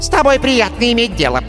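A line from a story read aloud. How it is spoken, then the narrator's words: Squeaky wizard. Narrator (Russian): пропищал маг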